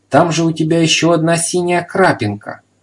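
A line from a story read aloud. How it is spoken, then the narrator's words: Delighted exclamation. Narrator (Russian): В восторге воскликнул господин Пепперминт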